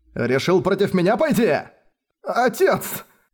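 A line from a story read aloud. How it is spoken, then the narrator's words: Frightened babbling. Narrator (Russian): Поёжившись от страха, пролепетал Манхао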